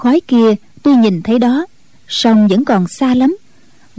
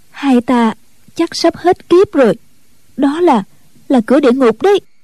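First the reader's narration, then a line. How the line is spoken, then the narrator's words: Trembling voice. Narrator (Vietnamese): Ân Tố Tố run run nói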